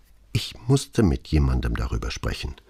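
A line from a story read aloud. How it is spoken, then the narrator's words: Barely audible quiet voice. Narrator (German): sagte sie so leise, dass er sie nur mit Mühe verstehen konnte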